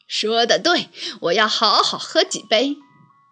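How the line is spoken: Happy hearty laughter. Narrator (Chinese): 后羿开心的大笑

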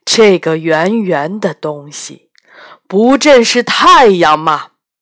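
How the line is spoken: Emperor laughing. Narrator (Chinese): 皇帝笑道

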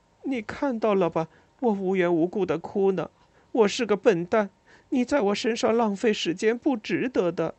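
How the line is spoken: Crying. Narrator (Chinese): 边哭还边说着

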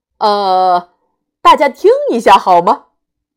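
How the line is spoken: Sudden loud call. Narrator (Chinese): 爸爸突然大声叫道

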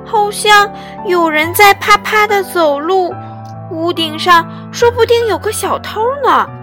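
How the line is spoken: Small mouse shouting. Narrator (Chinese): 小老鼠喊了起来

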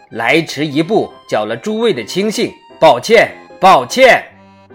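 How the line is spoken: Loud, ringing voice. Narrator (Chinese): 此人声音洪亮地说

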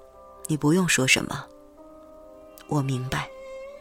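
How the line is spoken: Flat, indifferent. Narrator (Chinese): 以琛淡淡的说

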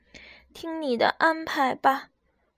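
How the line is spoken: Sighing. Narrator (Chinese): 小猪叹了口气

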